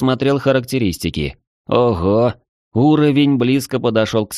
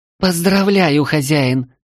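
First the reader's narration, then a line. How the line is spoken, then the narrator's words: Joyful squeal. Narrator (Russian): радостно взвизгнула Ева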